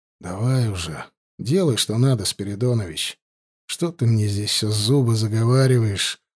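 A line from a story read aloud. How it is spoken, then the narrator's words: Sighing. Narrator (Russian): вздохнул Егоров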